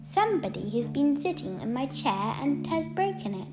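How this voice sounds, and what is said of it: Squeaky baby voice. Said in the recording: “in a squeaky baby voice,”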